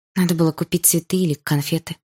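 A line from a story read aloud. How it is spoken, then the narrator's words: Sigh. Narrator (Russian): вздохнула я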